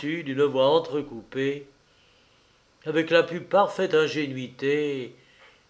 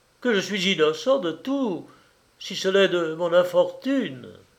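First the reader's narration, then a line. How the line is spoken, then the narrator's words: Exclamation. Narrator (French): s'écria Silas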